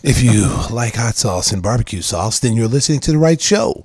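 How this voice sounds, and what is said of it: Exaggerated sexy, sultry voice. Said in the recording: “Here's a sexy voice”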